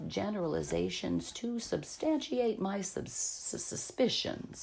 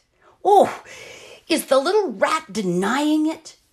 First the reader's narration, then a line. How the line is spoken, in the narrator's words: She screamed